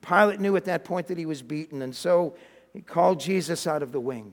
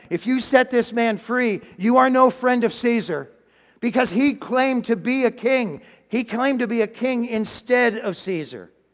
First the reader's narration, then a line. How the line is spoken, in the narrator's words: the religious leaders started shouting